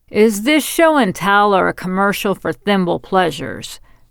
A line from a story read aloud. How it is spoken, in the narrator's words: Marianne Knight grumbled loudly enough for everyone to hear